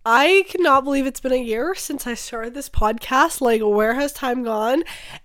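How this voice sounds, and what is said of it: Raspy, partly lost voice. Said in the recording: “my voice is a little raspy today ... I got sick last week ... my voice is still a little bit gone. So you guys get raspy voice”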